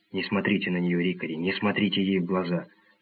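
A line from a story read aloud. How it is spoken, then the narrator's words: Whispered. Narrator (Russian): Я прошептал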